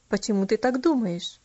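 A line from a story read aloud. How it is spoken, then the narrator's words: Plain question. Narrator (Russian): опять спросил он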